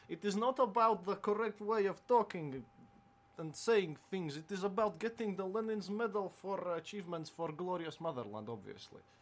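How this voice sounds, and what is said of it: Thick Russian accent, rolled R's. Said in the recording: “showing off how nice he can roll his R's ... put on my thick Russian accent”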